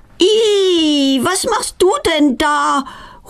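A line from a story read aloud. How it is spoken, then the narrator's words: Horrified cry. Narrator (German): ruft entsetzt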